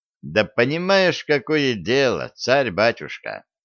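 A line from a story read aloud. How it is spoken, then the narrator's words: Thoughtful. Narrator (Russian): задумчиво сказал Виталик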